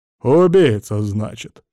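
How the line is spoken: Scholar's skeptical grunt. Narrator (Russian): хмыкнул академик

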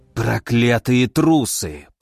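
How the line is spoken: Through clenched teeth. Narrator (Russian): процедил Клаус

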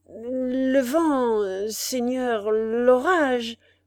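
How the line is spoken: Trembling stammer. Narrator (French): balbutia le tremblant Spiagudry

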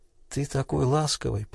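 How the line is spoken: Murmured. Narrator (Russian): пробормотала

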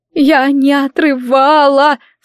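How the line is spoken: Sobbing wail. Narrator (Russian): всхлипнув, завыла Гизелла

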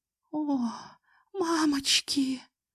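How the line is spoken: Moaning. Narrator (Russian): простонала Алсу

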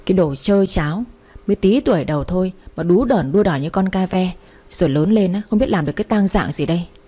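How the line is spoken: Exasperated hissing mother. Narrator (Vietnamese): Vẻ mặt của tôi bình thản đến nỗi mẹ Loan của tôi phải rít ẩm lên

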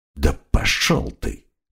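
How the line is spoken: Mutter. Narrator (Russian): пробормотал крокодил

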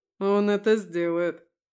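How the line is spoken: Snorting chuckle. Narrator (Russian): хмыкнул Витя

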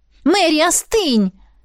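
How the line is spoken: Shouted. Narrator (Russian): крикнула

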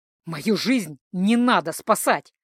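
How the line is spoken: Angry hiss. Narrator (Russian): прошипел Джейка

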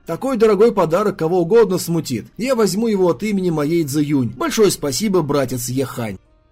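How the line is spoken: Sudden chuckling declaration. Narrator (Russian): Внезапно, прерывая неловкую паузу, Нели хохотнув, заявил

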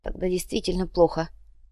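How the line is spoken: Mutter. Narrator (Russian): пробормотал

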